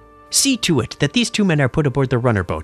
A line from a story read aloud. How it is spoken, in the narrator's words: he snapped to them